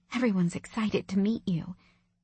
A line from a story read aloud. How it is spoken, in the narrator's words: she whispered